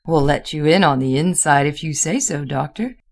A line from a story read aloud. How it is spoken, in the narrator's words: he laughed